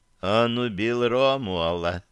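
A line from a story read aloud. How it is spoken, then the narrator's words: Quiet drawl. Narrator (Russian): тихо протянула Берия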